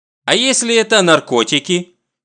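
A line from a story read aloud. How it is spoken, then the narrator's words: Stern question, grandmother. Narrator (Russian): Строго смотря на внука, спрашивает бабушка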